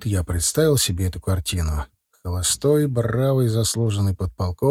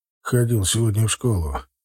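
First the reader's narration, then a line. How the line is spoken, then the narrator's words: Sudden chuckle. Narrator (Russian): хохотнул вдруг Григорий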